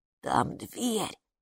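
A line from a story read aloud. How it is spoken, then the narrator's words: Whisper. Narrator (Russian): шепнул Капу Хилли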